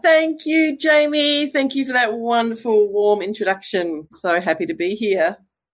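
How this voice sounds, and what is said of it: Australian accent. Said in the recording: “I could listen to your accent all day ... It's like music to my ears. It's just beautiful. And obviously you are Australian.”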